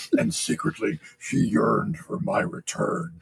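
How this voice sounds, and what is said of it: Impression of the Kurgan's voice. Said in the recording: “I love doing the Kurgan voice.”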